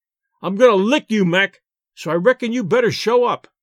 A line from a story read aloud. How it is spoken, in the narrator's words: shouted the Rube